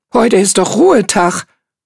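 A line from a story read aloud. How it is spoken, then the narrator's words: Called out. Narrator (German): rief Hark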